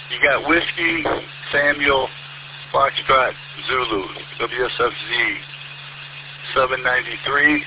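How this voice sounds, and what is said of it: Slow, deliberate spelling out. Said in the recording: “say it slowly, please?”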